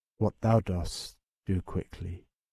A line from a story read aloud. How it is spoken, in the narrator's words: said quietly